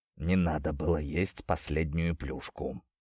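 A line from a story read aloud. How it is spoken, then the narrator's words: Near-whispered mumble. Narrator (Russian): почти шепотом пробормотал он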